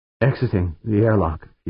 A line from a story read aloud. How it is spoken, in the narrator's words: Fuchs said, his voice trembling slightly